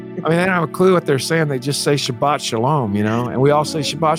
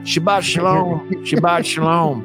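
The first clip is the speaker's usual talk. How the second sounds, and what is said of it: Imitated funny Texas accent. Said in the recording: “you got to hear them speak in their really funny Texas accent.”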